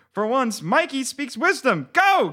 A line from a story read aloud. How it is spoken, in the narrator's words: cried a girl